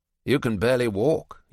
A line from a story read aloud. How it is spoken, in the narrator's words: he says flatly